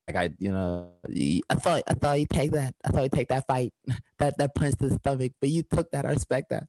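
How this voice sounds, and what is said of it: Imitates another person's voice. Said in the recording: “That's my Mike Tyson accent... That's pretty good.”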